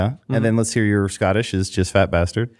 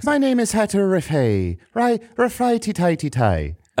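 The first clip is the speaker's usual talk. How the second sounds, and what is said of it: Put-on Irish accent. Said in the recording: “Do an Irish accent.”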